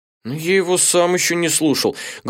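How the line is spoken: Sad lamenting voice. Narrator (Russian): грустным голосом запричитал Эдзаки

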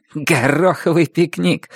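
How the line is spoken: Muffled snort. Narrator (Russian): фыркнула Энджел сквозь волосы

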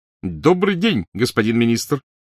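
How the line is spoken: Shouting. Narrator (Russian): крикнул Перси

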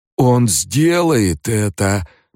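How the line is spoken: Wheezing, hoarse. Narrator (Russian): прохрипел Малки

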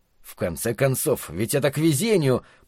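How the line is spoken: Muttering under breath. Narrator (Russian): пробурчал себе под нос Фрэнки

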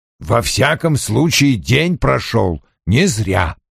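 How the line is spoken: Grunting. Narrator (Russian): хмыкнул Вульф

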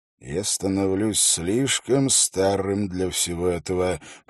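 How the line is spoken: Muttered under breath, proud. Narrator (Russian): пробормотал Холт под нос, его переполняла гордость

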